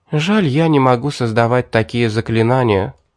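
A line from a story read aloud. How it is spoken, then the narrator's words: Sighing. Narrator (Russian): вздохнула Дарья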